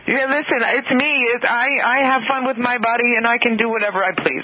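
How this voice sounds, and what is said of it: Imitating a woman's accent. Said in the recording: “in her greatest accent ever. I'll do my best.”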